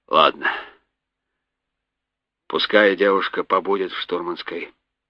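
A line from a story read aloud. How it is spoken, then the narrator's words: Gruff grumble. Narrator (Russian): буркнул капитан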